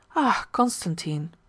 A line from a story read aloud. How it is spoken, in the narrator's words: put in his wife anxiously